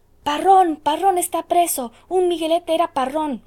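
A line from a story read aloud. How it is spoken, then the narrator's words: Many voices shouting. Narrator (Spanish): gritaron muchas voces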